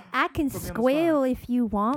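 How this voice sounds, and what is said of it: Put-on Southern country accent. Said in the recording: “your southern accent ... That southern character right there ... Just any country, anything. That voice you do.”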